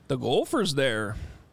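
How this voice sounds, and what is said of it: Put-on Minnesota accent. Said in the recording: “I had to do a Minnesota accent.”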